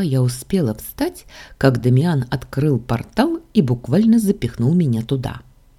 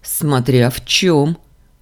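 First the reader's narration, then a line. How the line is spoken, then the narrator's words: Amused snort. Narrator (Russian): хмыкнул Дамиан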